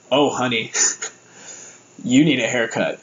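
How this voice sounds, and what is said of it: Imitates another person's voice. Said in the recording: “I'm trying to do the voice, but he goes”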